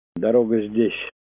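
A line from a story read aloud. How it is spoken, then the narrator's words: Plain. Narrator (Russian): сказал он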